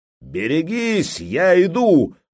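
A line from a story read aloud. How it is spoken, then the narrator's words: Roar of hundreds. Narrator (Russian): взревели сотни глоток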